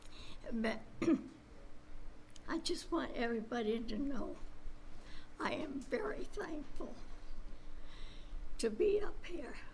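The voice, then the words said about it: Strained, worsening voice. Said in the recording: “my voice is getting bad”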